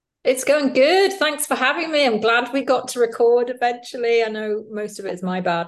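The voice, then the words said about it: British accent. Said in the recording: “I'm British. You can probably tell by the accent, although some people think I'm Irish or Australian, mainly Americans. ... To me, I sound British”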